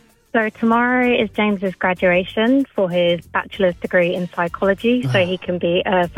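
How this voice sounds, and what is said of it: Usual voice. Nothing is said of it.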